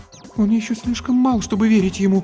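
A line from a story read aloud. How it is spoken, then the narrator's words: Frightened. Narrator (Russian): испуганно сказала Антония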